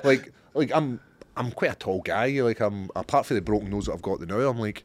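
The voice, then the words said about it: Scottish accent. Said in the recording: “What do the English think about a Scottish accent?”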